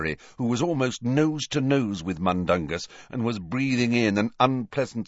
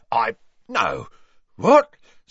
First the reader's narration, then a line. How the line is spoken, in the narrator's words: spluttered Mundungus, who was turning slowly purple